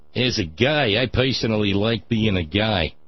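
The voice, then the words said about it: Put-on Chicago-like American accent. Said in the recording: “probably got the wrong accent there. Probably right mindset, wrong accent. ... That's almost more Chicago, isn't it? I need to work on that.”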